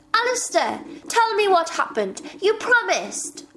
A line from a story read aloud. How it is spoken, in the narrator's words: shouted